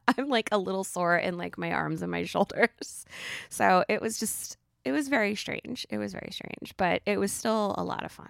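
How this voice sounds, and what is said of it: Raspier than usual voice. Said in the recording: “my voice is a little raspier than usual ... she's not so like squeaky and ridiculous”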